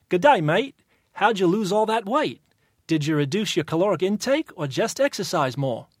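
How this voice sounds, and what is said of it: Put-on Australian accent. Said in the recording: “it's Australian”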